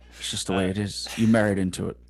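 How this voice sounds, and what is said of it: Anton Chigurh impression. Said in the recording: “do an Anton Chigurh impression”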